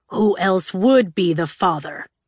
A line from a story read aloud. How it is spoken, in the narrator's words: Legend growled